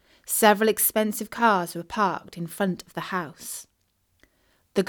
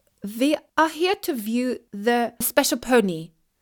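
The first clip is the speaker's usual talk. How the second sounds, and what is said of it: Phony Russian accent. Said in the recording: “spoke in her best phony Russian accent”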